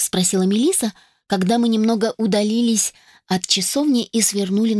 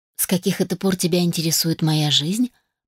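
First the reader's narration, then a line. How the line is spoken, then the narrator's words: Muttered reply. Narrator (Russian): пробормотала в ответ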